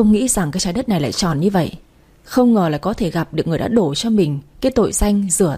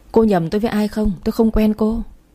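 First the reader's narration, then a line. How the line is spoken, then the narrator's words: Stammering denial. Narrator (Vietnamese): mới đầu bà ta còn lắp bắp phủ nhận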